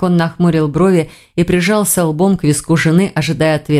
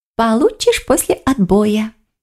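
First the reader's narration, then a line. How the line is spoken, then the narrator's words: Purring fox. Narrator (Russian): промурлыкала лиса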